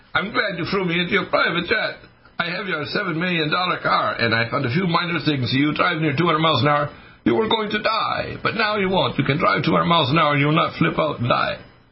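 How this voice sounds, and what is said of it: Very strong Italian accent. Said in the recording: “with a very strong Italian accent”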